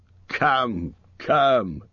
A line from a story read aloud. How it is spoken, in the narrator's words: said Thorin, laughing